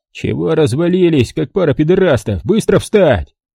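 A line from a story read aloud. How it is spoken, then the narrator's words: Barked. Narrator (Russian): рявкнул он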